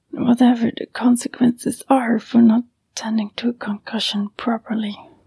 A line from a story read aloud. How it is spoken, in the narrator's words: she muttered bitterly